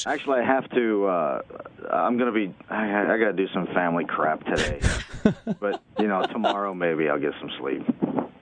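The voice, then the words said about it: Tired, awful-sounding voice. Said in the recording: “You sound awful.”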